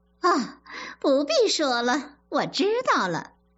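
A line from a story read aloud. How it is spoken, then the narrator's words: Laughing, cutting off. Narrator (Chinese): 凤姐儿笑着制止说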